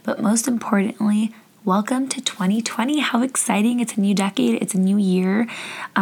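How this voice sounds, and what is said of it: Rough, worn-out voice. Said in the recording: “My voice sounds terrible”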